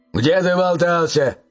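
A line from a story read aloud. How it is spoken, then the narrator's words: Father's bark. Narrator (Russian): рявкнул отец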